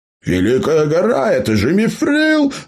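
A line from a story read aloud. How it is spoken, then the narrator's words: Furious roaring yell. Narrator (Russian): заорал гном бешеным кабаном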